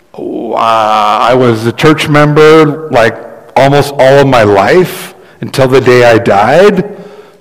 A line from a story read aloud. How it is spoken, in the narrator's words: the man stammers